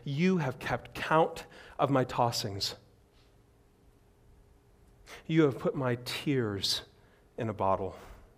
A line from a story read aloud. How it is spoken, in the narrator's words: cries to God and he says